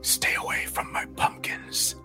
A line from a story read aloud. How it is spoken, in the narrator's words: it hissed